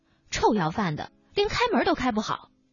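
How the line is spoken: Angry. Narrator (Chinese): 老板怒了

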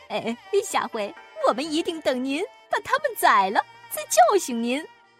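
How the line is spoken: Ingratiating laughter. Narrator (Chinese): 两个侍臣赶紧陪笑

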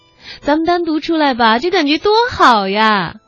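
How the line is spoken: Excited shouting. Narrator (Chinese): 妹子疯够了，激情澎湃的跟李小峰嚷嚷

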